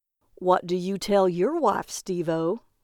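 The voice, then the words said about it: Mocking voice. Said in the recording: “said in a mocking voice”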